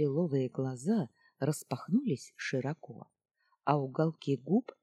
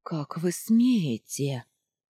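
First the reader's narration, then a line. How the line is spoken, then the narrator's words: Breathless female gasp. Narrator (Russian): выдохнула она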